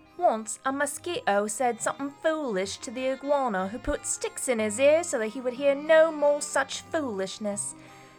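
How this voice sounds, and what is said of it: Put-on British accent. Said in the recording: “you can choose whatever British accent you want... I'll go with Brit.”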